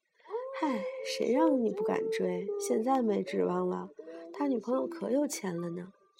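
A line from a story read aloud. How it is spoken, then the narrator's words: Regretful sigh. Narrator (Chinese): 室友惋惜的叹气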